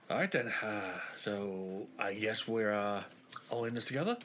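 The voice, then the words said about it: Inconsistent put-on accent. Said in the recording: “I can't keep the fucking accent consistent.”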